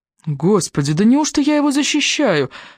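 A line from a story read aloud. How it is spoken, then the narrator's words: Horrified exclamation. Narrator (Russian): воскликнул Энтони, демонстрируя на лице ужас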